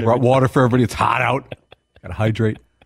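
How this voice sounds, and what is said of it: Imitates another person's voice. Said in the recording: “give me your J.J. Watt impersonation”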